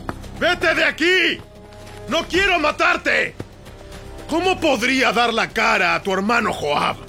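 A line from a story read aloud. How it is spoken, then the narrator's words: Shouting again. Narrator (Spanish): Abner le volvió a gritar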